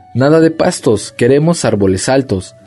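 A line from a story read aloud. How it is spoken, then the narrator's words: Indignant giraffe shouting. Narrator (Spanish): gritó indignada la jirafa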